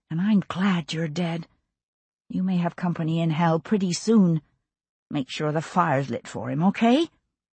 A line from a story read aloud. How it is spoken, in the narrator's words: she said under her breath